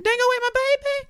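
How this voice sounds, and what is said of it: Sings falsetto in Australian accent. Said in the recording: “You can't have an Australian accent in a falsetto. ... I'd love to see you specifically try.”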